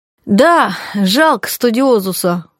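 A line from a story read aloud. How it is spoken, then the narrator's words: Sighing. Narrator (Russian): вздохнул Стахович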